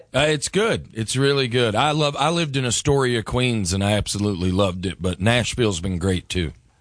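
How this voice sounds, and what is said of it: Southern American accent. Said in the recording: “You have a southern accent.”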